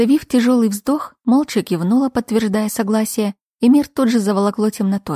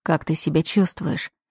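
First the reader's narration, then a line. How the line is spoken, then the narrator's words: Gentle inquiry, duke. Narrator (Russian): мягко поинтересовался герцог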